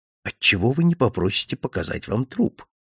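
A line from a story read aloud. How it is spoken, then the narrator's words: Whispered in ear. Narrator (Russian): прошептал мне на ухо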